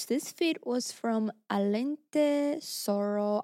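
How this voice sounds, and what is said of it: Spanish accent on a name. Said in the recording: “I don't know why I said that in Spanish... Spanish accent.”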